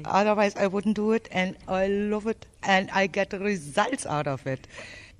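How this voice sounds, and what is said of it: German accent. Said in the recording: “Where's your accent from? ... I'm from Germany, originally from Berlin.”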